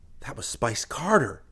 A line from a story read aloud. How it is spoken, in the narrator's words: Chris gasped in a low voice